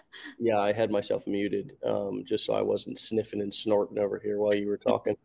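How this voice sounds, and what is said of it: Congested voice with a cold. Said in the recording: “My allergies, and I got a cold ... if I have a little cold”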